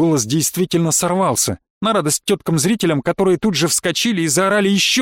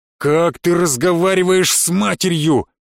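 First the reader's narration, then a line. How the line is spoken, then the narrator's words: Thunderous yell. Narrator (Russian): заорал громовым голосом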